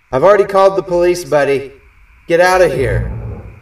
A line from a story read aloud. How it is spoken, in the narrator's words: yell out